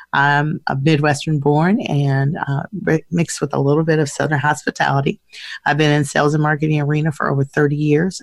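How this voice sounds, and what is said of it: Raspy, congested voice. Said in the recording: “I don't sound like I normally do because I've been battling some sinus issues since Monday, so my voice doesn't normally sound this raspy”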